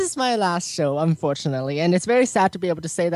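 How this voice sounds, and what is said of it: Usual voice. Nothing is said of it.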